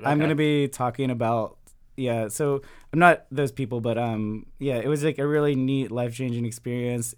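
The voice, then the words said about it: Slightly hoarse voice. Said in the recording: “my voice sounds a little hoarse ... Too much yelling at people.”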